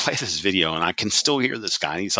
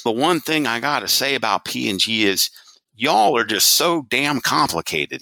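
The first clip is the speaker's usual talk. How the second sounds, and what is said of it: Southern US accent. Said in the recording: “he's like in his Southern accent”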